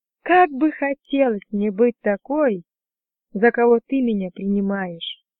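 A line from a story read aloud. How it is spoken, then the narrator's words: Mumbling. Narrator (Russian): пробормотала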